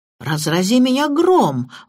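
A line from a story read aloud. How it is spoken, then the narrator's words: Exclaiming. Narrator (Russian): воскликнул сэр Генри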